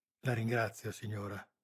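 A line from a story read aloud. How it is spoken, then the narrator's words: Murmured. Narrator (Italian): mormorò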